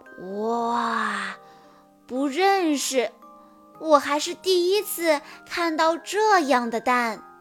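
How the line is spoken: Amazed exclamation. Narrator (Chinese): 麦克斯惊叹道

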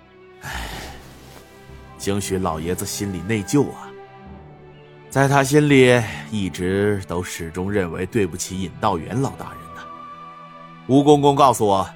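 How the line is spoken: Sighing. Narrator (Chinese): 晋王叹声道

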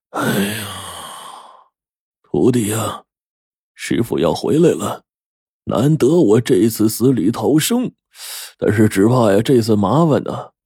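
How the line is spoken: Sighing. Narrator (Chinese): 胡老道叹了口气，对我说

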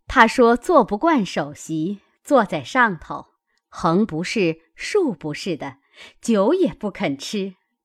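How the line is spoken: Laughing reply. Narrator (Chinese): 尤氏又笑回道

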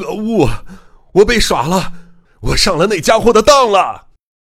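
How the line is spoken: Frustrated angry roar. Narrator (Chinese): 松野不甘心的大吼

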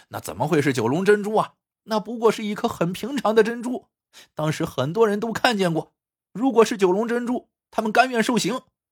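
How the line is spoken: Laughing, several voices. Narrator (Chinese): 王半成、曾博文和陶县令听了都愣了愣，接着哈哈大笑起来，说

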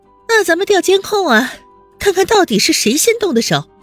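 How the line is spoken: Loud. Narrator (Chinese): 温之夏大声道

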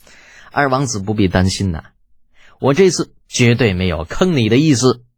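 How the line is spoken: Gratified smiling. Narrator (Chinese): 李浩欣慰的笑着

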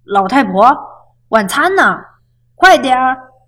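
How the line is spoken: Loud shouting. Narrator (Chinese): 朱先生总是大声喊

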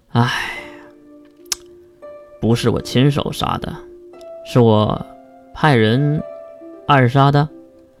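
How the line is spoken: Long sigh. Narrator (Chinese): 金龙透也是长叹一口气

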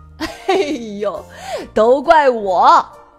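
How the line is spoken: Loud laughter. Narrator (Chinese): 米娅姑妈仰天大笑

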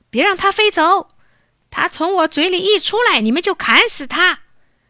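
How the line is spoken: Shouting. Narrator (Chinese): 国王大喊

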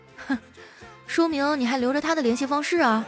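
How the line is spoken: Sneering cold laugh. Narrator (Chinese): 小黑的女朋友冷笑一声说

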